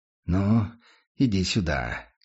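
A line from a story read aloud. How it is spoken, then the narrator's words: Quiet. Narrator (Russian): тихо произнес он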